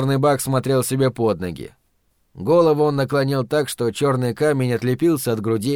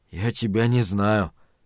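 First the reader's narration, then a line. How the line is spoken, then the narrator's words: Muttering. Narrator (Russian): пробормотал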